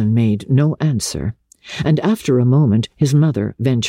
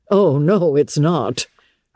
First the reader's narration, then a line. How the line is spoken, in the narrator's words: her son groaned